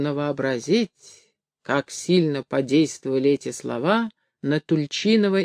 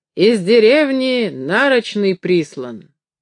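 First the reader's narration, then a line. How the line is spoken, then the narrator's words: Breathless, joyful. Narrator (Russian): Яков запыхавшись, радостным голосом сказал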